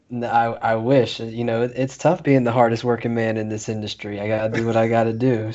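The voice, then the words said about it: Raspy, hoarse voice. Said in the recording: “your voice a little raspy”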